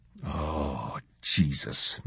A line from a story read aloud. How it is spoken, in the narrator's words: Macklin breathed